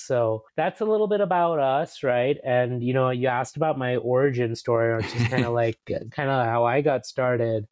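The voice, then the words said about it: American East Coast accent. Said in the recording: “You can probably tell from my accent. ... I'm American. I spent most of my life growing up on the East Coast ... I grew up in New York City.”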